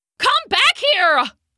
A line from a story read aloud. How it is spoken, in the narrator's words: shouted